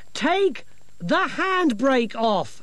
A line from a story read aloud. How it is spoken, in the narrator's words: she shouted